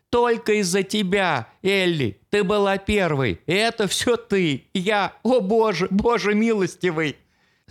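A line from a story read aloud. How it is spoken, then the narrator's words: Dissolving into sobs. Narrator (Russian): Слова растворились в приступе неразборчивых всхлипов и в конечном итоге обернулись потоком слез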